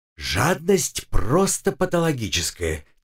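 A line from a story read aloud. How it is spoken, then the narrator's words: Quiet whisper. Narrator (Russian): тихо шепнула мне Маринка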